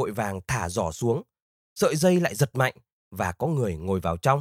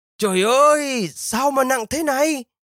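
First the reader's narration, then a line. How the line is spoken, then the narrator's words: Exclaiming. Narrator (Vietnamese): Ivan kêu lên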